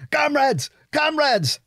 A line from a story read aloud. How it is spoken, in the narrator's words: yelled